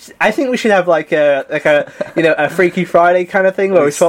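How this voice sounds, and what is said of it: Usual voice. Nothing is said of it.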